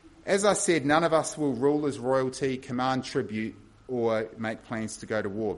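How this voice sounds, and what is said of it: Thick New Zealand accent. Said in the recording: “a thick New Zealand accent”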